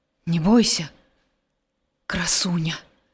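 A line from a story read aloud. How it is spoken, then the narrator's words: Quiet. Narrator (Belarusian): ціха сказаў Геракл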